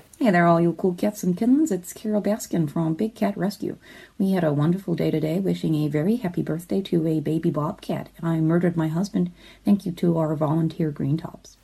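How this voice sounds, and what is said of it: Impression of Carole Baskin. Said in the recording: “her Carol Baskin impression”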